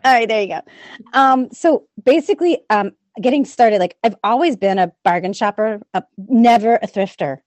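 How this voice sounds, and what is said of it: New Orleans accent, squeaky voice. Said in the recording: “I'm from New Orleans. So if you hear an accent ... I'm super squeaky”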